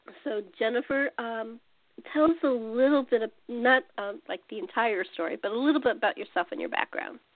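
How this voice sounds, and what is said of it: Scratchy, hoarse voice. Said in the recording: “Please forgive my scratchy voice. I had laryngitis, so if I sound terrible”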